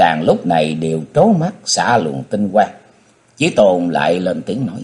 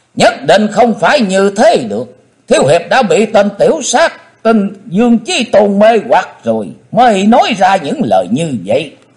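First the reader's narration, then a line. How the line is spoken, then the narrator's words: Loud shout. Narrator (Vietnamese): Hận Thế Tần Mũi Hy đã thét lớn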